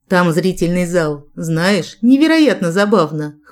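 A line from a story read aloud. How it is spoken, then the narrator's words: Amused snort. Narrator (Russian): хмыкнул Джек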